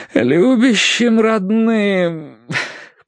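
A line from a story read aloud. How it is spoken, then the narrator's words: Moaning. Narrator (Russian): простонал Терренс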